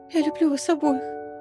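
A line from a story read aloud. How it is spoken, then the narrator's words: Whisper. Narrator (Russian): прошептала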